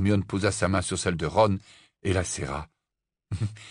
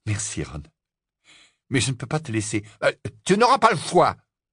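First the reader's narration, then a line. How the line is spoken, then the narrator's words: Fierce retort. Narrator (French): répliqua Ron d'un ton féroce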